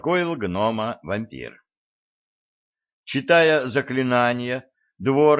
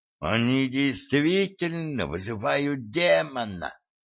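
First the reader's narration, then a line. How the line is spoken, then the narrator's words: Hissing. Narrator (Russian): прошипел Тор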